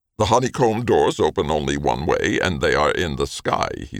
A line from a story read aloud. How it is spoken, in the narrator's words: he said curtly